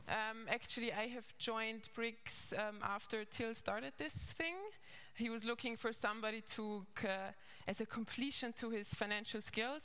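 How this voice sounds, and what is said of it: Austrian-accented English. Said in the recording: “as you might hear from my accent, maybe I'm Austrian originally, so I have like this Arnie accent coming through from time to time”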